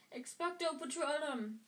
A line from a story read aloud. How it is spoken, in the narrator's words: Harry yelled